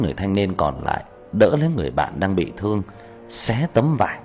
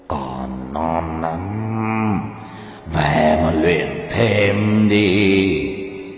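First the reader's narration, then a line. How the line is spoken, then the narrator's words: Eerie hiss through teeth. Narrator (Vietnamese): Tên quỷ rợn người mà rít vào qua kẽ răng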